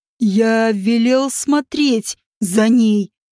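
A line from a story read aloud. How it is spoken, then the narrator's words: Angry hiss. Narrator (Russian): прошипел он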